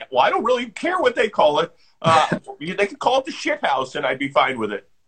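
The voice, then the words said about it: Imitates another person's voice. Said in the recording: “that's a good impression of him.”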